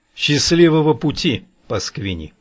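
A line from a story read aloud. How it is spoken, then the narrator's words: Malicious laugh. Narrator (Russian): злобно засмеялся я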